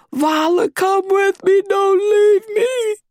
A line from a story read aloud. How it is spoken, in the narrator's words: She didn't want to go back there alone, she screamed